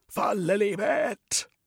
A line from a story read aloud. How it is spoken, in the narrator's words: shouted